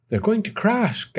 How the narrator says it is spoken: gasped Stella Luna

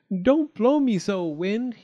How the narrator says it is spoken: cried

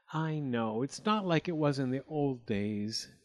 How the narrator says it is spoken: Ingeborg sighed

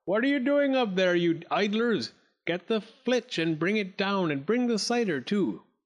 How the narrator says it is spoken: bawled

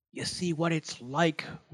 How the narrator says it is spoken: whispered Wildcat to Ichiro

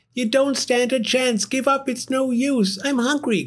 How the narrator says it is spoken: cried Cyril

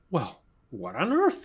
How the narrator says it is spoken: he exclaimed

